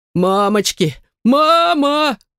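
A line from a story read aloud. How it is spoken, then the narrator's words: Muffled panicked scream. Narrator (Russian): закричал будущий правитель, закрывая пропитую морду руками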